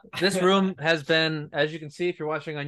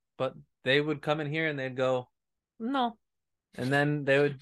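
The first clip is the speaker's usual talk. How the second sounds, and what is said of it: Imitated Spanish accent. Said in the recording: “They're Spanish ... good impersonation”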